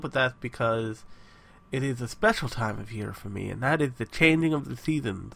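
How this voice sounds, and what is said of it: Congested, nasal voice. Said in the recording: “I sound like a nose right now ... experiencing allergy-like symptoms”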